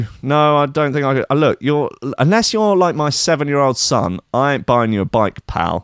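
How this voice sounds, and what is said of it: Usual voice. Nothing is said of it.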